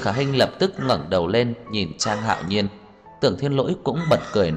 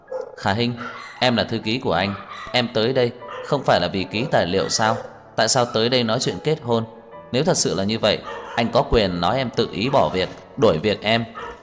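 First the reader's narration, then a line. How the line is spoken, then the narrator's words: Laughing, somewhat serious. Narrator (Vietnamese): Trang Hạo Nhiên bật cười có chút nghiêm túc nói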